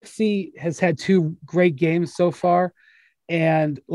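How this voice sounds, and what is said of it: Usual voice. Nothing is said of it.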